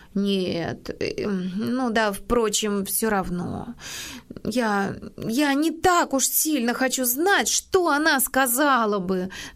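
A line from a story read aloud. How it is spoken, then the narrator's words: Stammering. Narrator (Russian): запинаясь, вымолвила Нэнси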